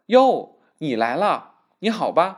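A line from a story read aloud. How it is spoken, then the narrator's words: Laughing greeting. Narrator (Chinese): 客人笑着叫声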